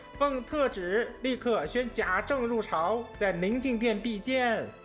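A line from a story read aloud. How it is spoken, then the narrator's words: Smiling. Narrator (Chinese): 那夏太监满面笑容，口内说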